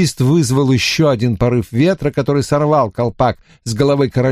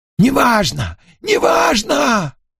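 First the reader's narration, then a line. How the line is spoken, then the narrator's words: Cheerful shout. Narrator (Russian): весело крикнул король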